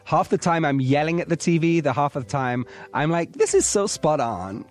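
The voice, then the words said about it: Put-on American Valley Girl accent. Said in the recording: “you're doing it in your American accent, like Valley Girl accent”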